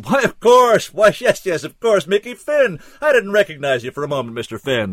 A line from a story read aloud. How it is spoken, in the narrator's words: Callahan's face split in a wide grin, and he bellowed